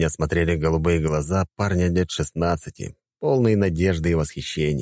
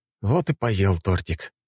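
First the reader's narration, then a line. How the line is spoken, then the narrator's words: Sighing. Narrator (Russian): вздохнул я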